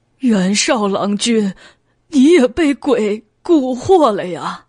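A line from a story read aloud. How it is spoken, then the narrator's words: Despairing, near tears. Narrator (Chinese): 王贵欲哭无泪的道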